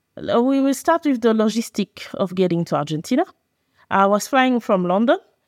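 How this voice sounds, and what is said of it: Speaks English with an accent. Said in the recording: “if you have trouble understanding my accent”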